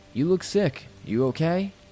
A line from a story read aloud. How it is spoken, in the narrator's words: he asked